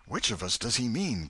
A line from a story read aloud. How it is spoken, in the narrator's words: gasped Huckleberry